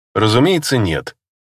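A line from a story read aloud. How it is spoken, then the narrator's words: Calm, smiling, soothing. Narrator (Russian): спокойно улыбнулся я, решив, что лучше успокоить темпераментную красноволосую красотку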